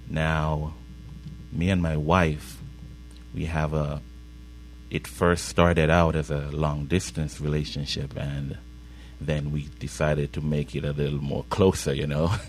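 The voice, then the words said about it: Slight Caribbean accent. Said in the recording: “I kind of have a little bit of an accent, and that's because we hail from the Caribbean”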